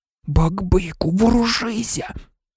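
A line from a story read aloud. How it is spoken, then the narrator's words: Hissing. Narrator (Ukrainian): зашипів Гаррі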